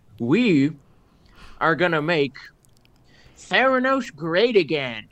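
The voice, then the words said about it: Imitates another person's voice. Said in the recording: “this is my best impression of her ... she would change her voice on purpose to sound more manly”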